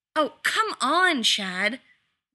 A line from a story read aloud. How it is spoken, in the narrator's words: Lex snapped